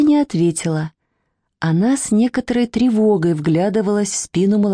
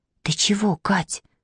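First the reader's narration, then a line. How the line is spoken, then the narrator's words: Whispered question. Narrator (Russian): шепотом спросила Маня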